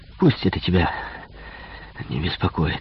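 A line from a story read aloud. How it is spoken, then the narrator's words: Strained wheeze. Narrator (Russian): с усилием прохрипел я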